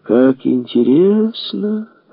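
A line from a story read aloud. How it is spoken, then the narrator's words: Fake singsong voice. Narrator (Russian): Фальшивым голосом пропел Мишка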